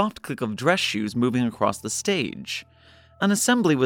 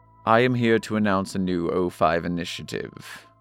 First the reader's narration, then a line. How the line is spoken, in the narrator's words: Gears said, his voice flat and even